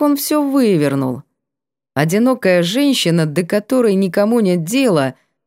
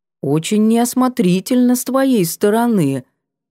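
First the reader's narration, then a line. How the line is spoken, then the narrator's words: Almost gentle. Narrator (Russian): уведомили меня почти ласково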